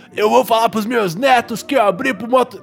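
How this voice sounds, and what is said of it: Poor imitation of another person's voice. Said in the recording (Portuguese): “interpretando o Jimmy ... que bosta de imitação”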